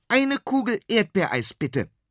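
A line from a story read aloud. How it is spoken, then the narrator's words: Calling out. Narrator (German): ruft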